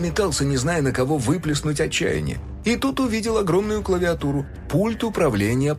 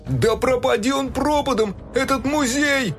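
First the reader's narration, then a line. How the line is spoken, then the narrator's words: Furious yell. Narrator (Russian): в ярости заорал Фил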